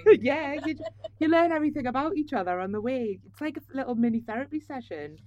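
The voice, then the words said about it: Geordie Tyneside accent. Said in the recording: “your accent, which is from Tyneside ... everyone says it's a friendly accent ... Are you a Geordie?”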